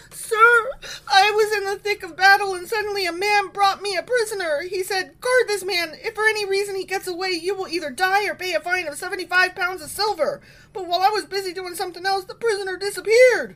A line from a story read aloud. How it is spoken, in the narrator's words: the prophet called out to him